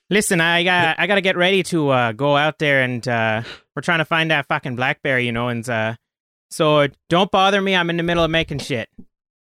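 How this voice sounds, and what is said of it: Put-on Newfoundland accent. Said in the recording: “I know how to start a Newfie accent.”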